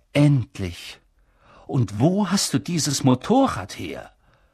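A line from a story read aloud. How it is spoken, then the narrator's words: Relieved voice. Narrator (German): sagte Dumbledore mit erleichterter Stimme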